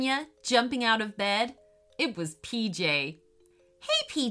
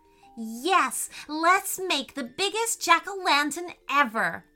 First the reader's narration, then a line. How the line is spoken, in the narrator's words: shouted PJ excitedly